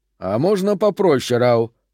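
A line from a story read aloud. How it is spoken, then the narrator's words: Grumbling. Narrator (Russian): проворчал Персивал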